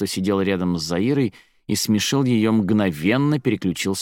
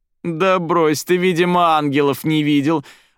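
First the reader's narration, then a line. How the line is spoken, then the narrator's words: Laughing loudly at own joke. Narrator (Russian): Расхохоталась над собственной шуткой Заиры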